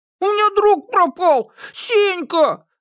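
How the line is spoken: Shouting. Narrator (Russian): закричал Никита

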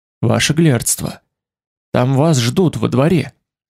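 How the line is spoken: Whisper. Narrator (Russian): прошептал

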